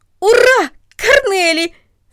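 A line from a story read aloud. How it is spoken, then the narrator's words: Shout. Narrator (Russian): закричал он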